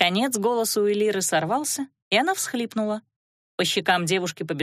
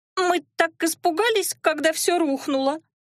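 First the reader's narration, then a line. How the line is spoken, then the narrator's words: Sobbing. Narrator (Russian): сквозь всхлипы проговорила Элира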